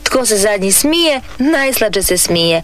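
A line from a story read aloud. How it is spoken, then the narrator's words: Mocking. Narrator (Croatian): reče mu Lela podrugljivo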